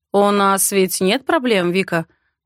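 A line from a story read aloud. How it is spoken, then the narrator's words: Even, seemingly joking question. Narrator (Russian): спрашивает он ровно и как будто шутливым тоном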